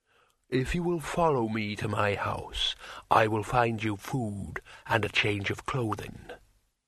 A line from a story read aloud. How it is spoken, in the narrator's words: said the troll solemnly